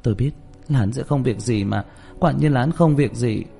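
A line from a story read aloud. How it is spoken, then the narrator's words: Sighing mutter. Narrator (Vietnamese): Châu Tĩnh Như thở dài lẩm bẩm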